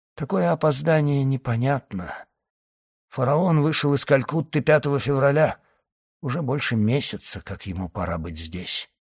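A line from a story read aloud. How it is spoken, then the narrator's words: Muffled voice after pause. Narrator (Russian): Помолчав, господин Моррель прибавил глухим голосом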